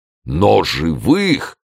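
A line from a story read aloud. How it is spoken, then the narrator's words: Exclaiming. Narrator (Russian): воскликнул Портос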